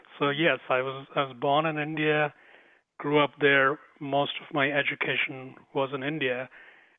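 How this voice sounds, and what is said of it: Slight Indian accent. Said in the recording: “You might pick up a little bit of the Indian accent.”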